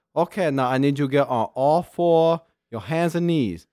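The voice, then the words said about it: Put-on comedic accent. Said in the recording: “this accent is awesome. ... you're like Uncle Roger on Facebook.”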